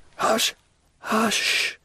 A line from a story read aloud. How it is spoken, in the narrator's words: murmured the dying man